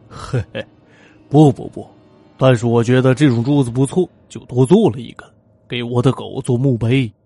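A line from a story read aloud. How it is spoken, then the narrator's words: Chuckling, meaningful tone. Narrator (Chinese): 吉姆 嘿嘿的笑着，意味深长的说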